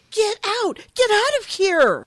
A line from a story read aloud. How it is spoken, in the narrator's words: shrieks at him